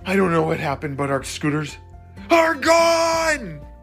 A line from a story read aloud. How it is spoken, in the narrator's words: Jackson shouted